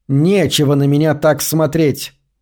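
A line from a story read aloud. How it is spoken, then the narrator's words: Sudden snapping retort. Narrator (Russian): огрызнулась она неожиданно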